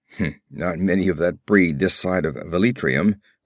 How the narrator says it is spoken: grunted Conan

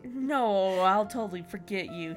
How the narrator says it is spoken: he said sarcastically

